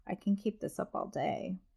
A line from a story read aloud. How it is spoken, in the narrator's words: she says with an evil laugh